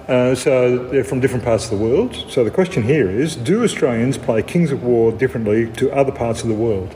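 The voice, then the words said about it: Australian accent. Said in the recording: “not Australian. They probably have difficulty even understanding our accent”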